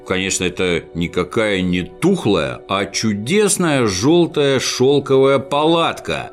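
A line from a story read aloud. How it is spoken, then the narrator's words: Plain. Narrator (Russian): сказал Снусмумрик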